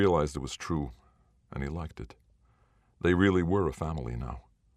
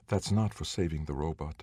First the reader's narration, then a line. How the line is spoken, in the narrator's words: she whispered